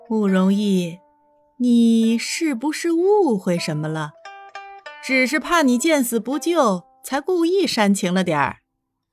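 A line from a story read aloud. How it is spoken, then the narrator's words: Unhurried, suppressed laughter. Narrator (Chinese): 颜灵溪强忍住笑意，不疾不徐的说道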